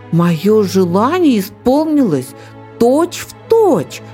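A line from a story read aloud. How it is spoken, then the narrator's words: Young eaglet exclaiming. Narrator (Russian): воскликнул беркутенок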